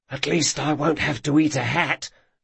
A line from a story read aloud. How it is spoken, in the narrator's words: Locke whispered to Jean